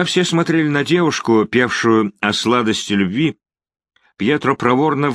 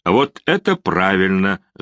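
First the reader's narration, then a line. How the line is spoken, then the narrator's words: Laughing. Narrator (Russian): засмеялся Харун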